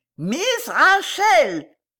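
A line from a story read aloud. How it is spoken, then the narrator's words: Chubby man screaming. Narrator (French): hurla le gros joufflu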